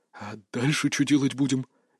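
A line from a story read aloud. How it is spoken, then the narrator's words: Uncertain whisper. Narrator (Russian): неуверенно шепнул на ухо другу Сузуму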